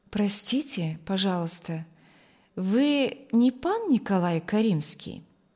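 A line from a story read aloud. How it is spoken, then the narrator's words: Melodious pleasant voice. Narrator (Russian): спросил он мелодичным, приятным голосом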